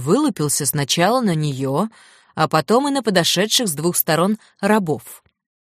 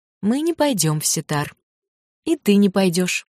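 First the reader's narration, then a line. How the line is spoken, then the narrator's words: Calm, composed voice. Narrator (Russian): Отрава взяла себя в руки, усмехнулась и сказала теперь совершенно спокойным голосом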